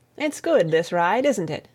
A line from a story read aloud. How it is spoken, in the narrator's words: Tom said presently